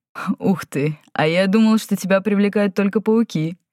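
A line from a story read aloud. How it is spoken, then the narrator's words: Laughing. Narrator (Russian): рассмеялся Нергал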